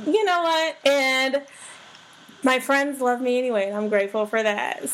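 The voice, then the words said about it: Slightly hoarse voice. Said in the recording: “I still got a little hoarse voice, a little hoarse”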